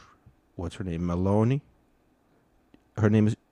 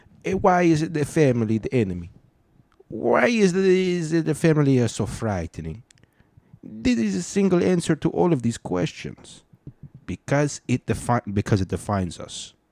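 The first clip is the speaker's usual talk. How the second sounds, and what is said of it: Put-on Italian accent. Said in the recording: “I'll say it in an Italian accent for you. So it sounds more realistic and authentic.”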